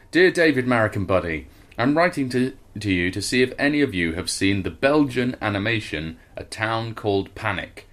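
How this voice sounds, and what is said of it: Articulate Mancunian accent. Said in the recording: “please read in an articulate Mancunian accent. It's basically mine.”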